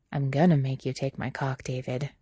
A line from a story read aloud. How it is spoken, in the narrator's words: he murmurs quietly